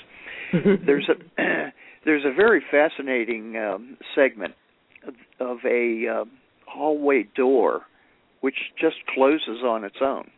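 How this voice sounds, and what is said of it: Hoarse, strained, failing voice. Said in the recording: “excuse me, I'm losing my voice.”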